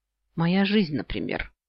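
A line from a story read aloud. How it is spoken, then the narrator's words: Curt, impolite mutter. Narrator (Russian): буркнула, не собираясь изображать дальше вежливость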